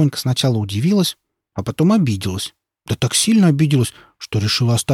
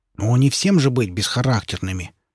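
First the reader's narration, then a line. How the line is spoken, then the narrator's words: Female grumbling. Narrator (Russian): проворчала Шпонька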